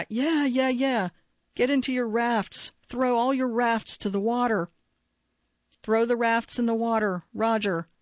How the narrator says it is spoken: Davidson yelled back

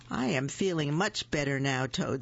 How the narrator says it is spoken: said Frog

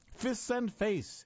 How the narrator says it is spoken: barked in Baghdadi-accented Arabic

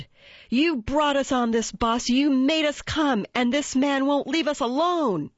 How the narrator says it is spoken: screamed

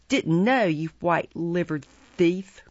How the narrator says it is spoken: growled Sykes

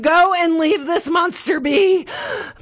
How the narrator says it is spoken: meant to scream

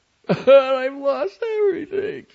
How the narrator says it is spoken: she said, sobbing

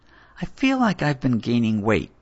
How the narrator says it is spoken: said hesitantly

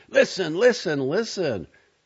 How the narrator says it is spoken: screaming

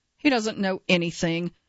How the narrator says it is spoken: Mishra scoffs

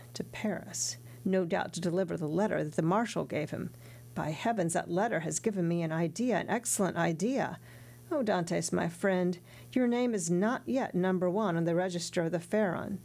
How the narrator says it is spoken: Danglars said aloud, and then added under his breath

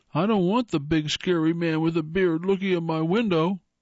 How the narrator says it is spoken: our son's voice quavered as he shrieked

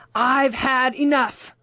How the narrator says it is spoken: Van Dan shouted, with the blood rushing to his face

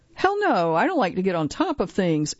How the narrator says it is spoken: she laughs

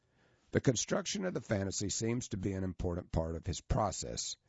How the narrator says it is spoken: said Dr

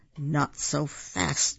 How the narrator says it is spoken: hissed an unpleasant voice

